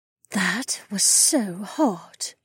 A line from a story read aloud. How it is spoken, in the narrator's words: Remna purred